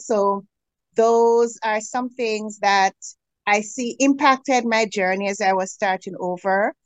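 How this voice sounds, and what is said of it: Caribbean accent. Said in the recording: “you talk, it's like I feel like I'm in the Caribbean. So I'm relaxed when you talk.”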